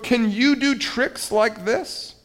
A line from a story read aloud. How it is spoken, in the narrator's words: cried Toad